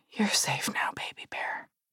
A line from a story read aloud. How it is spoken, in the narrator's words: whispered aloud